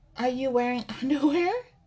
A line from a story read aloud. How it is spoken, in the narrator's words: Nia laughs